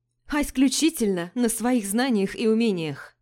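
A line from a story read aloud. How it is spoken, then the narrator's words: Exclaimed. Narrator (Russian): воскликнула я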